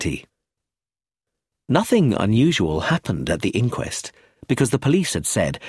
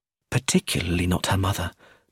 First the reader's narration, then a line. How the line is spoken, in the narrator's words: murmured Sophia